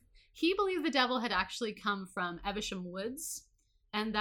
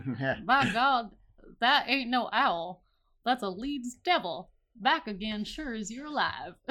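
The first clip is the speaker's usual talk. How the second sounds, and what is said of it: Put-on New Jersey Louisiana accent. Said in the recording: “I'm going to try to do this in my best weird New Jersey, Louisiana accent. ... That was perfect.”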